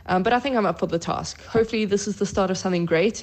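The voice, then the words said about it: South African accent. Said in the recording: “How about that accent? ... she's South African.”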